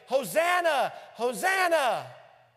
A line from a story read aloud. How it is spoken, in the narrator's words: the same voices that Friday shout